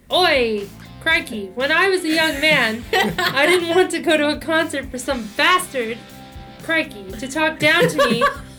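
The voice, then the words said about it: Put-on Australian accent. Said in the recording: “Can you do this in an Australian accent, please?”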